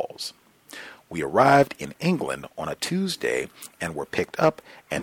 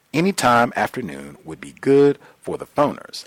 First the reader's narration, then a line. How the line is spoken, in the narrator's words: I said